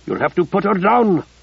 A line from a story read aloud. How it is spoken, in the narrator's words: Abdikadir said urgently